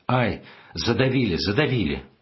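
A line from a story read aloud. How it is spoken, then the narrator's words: Frightened instinctive scream. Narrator (Russian): Я испугался за него и, закрыв лицо руками, закричал инстинктивно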